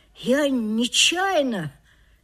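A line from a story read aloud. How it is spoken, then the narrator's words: Quiet drawn-out voice. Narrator (Russian): тихо протянул Мишка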